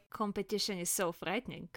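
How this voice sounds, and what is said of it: Put-on Slavic accent. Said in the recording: “I'll just do Slavic accent.”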